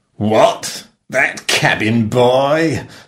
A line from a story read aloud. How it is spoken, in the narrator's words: spluttered the captain